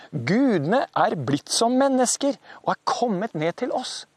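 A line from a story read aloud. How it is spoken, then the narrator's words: Astonished crowd. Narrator (Norwegian): Folkene ble helt forbauset over dette som hadde skjedd, og de sa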